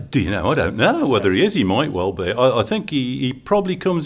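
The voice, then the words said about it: Black Country English accent. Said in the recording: “black country accent. Yes, indeed.”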